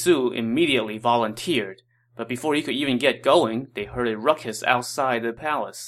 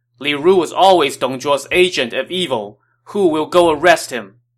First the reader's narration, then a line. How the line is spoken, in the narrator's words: First, Li Bu shouted